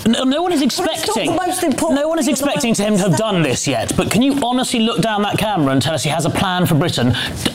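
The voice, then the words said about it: Plummy upper-class British accent. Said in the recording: “your plummy accent”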